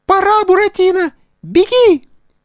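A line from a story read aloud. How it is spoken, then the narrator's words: Squeak near the ear. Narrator (Russian): пискнула ему над ухом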